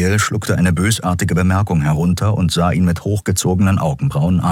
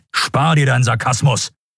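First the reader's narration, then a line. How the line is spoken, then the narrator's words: Barking sharply. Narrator (German): bellte Telios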